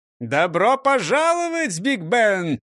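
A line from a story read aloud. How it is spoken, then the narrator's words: Shouting again. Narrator (Russian): снова крикнул Дон Карлос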